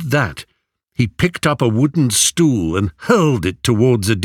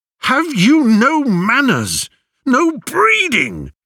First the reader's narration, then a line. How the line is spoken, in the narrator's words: yelled